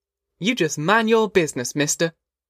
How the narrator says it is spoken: Ma said fiercely

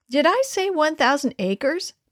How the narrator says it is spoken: piped in Wayne, not about to be outdone

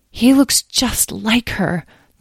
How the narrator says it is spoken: the woman breathed quietly to the man, Abner

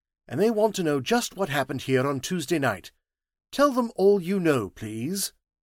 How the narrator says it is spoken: said sharply

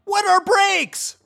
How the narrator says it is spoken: Wendell screamed back

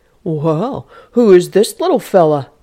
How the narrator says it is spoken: Nathan exclaimed

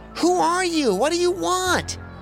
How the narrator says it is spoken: Hadley yelled

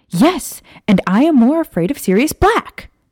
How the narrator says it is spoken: Maya shouted

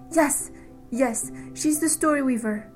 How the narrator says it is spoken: Penny gasped out

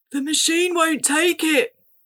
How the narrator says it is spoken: Ben cried

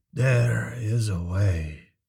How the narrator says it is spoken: he mumbled

